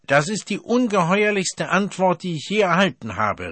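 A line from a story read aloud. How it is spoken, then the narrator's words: Angry teacher shouting. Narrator (German): rief der Lehrer wütend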